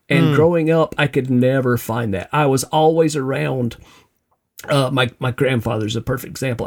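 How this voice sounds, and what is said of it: Southern American accent. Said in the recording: “as you can tell from the accent, uniquely Southern”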